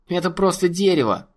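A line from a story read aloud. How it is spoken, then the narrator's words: Boy's scoffing snort. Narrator (Russian): хмыкнул мальчуган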